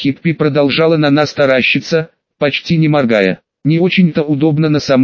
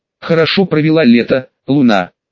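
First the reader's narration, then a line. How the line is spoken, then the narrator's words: Plain. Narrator (Russian): спросила она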